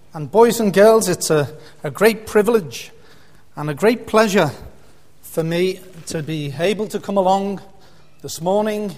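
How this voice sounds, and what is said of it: Liverpool accent. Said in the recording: “this isn't a Northern Ireland accent. ... with an accent like this? ... Liverpool. And I said, that's right.”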